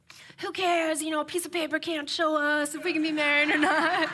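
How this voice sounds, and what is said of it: Imitates another person's voice. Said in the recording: “That was a good Kevin impression.”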